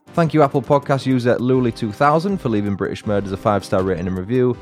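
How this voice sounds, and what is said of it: English accent. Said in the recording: “Love to hear the English accent.”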